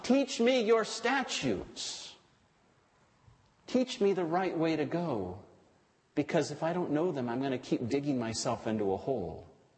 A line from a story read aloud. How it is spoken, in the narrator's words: David pleads with God